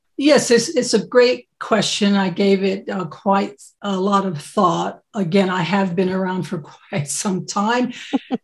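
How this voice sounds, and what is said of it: American accent. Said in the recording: “as folks will be able to hear from my accent, I'm American.”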